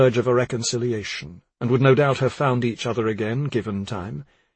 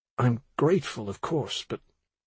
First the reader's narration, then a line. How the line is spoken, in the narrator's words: Dan muttered